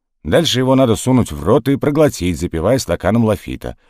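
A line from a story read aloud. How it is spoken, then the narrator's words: Plain. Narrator (Russian): ответил Штоквиц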